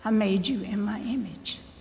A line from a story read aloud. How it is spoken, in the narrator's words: he says even more softly